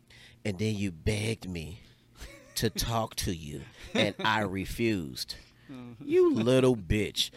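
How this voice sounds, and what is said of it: Good impression of another man. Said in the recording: “that impression was pretty good, by the way.”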